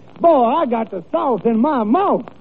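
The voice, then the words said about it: Exaggerated Southern US accent. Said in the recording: “just listen to my accent”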